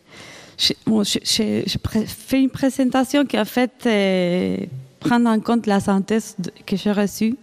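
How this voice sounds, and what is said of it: Slight Argentine accent in French. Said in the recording (French): “mon petit accent argentin”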